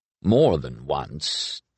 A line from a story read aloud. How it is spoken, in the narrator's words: Des murmured smugly